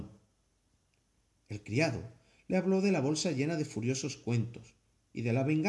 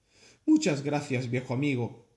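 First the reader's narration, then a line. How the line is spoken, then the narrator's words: Plain. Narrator (Spanish): dijo Long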